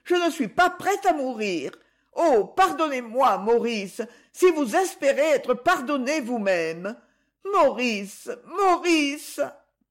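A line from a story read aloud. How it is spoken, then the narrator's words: Crying out. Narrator (French): criait-elle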